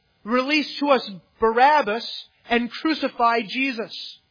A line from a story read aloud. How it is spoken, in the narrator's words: The people cried out to Pilate